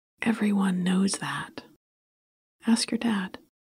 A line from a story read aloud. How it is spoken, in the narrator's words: whispered